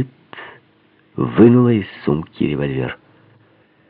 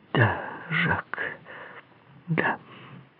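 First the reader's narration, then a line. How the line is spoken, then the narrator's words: Quiet repetition. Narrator (Russian): повторила она тихо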